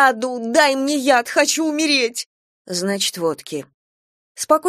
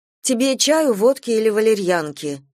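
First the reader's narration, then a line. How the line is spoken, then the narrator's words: Plain. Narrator (Russian): спросила Лариса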